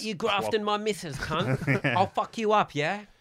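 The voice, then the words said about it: Put-on accent, aggressive bloke voice. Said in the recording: “good accent work there”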